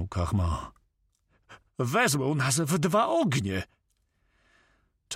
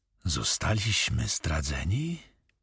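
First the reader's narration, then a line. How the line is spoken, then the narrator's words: Whispered. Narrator (Polish): wyszeptał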